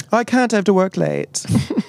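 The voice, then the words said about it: Put-on accent, performer's best. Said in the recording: “That's your best accent.”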